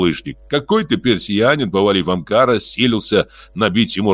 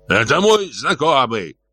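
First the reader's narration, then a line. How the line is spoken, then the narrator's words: Old man shouting. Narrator (Russian): закричал дед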